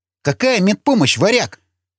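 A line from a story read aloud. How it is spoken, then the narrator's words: Sharp cry. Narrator (Russian): вскрикнул Вячеслав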